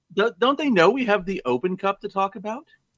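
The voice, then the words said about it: Impersonation of a co-host. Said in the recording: “That was my Steven impersonation.”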